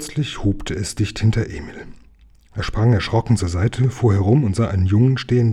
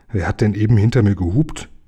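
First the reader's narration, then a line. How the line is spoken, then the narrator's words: Plain question. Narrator (German): fragte Emil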